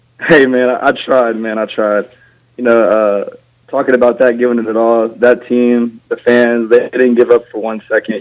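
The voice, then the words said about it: Hoarse, nearly lost voice. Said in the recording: “sorry about my voice. I'm still a little voiceless from the game”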